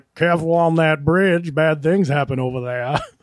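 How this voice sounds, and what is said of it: New England fisherman accent. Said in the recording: “That accent, I think, is the identical one Tom Hanks used in Captain Phillips... that's the exact accent that the fisherman from Tim's story has”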